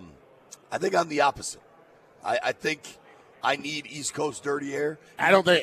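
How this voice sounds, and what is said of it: Hoarse, low raspy voice. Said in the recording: “My voice just shot ... sounds like Bea Arthur with a sore throat”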